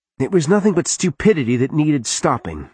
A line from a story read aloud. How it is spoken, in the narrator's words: Alicia snapped